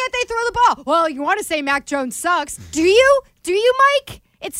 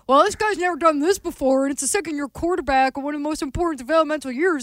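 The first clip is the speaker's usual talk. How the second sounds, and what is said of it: Imitates a TV sports pundit. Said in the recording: “that an impression? ... Every freaking talking head is who that was.”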